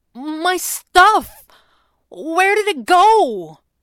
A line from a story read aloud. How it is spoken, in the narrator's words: Jeremy had protested, his voice sounding more panicked